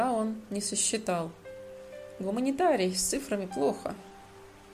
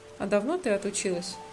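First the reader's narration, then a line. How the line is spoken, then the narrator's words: Grumbling. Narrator (Russian): пробурчал Родион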